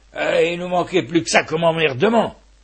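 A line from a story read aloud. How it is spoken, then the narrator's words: Grumbled. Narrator (French): bougonna-t-il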